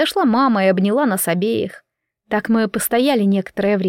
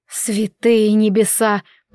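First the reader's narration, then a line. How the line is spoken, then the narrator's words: Aunt growling. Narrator (Russian): прорычала тетя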